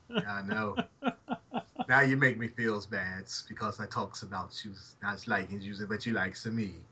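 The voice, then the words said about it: Put-on Italian accent. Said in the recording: “So now it's Italian ... you got to do that accent the entire time”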